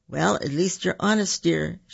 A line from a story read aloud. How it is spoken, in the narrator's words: said, stifling a laugh